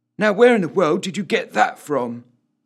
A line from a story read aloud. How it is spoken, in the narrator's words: he asked the cat urgently